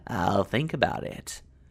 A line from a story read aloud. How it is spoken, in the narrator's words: cackled